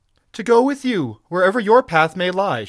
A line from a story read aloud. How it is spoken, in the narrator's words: she cried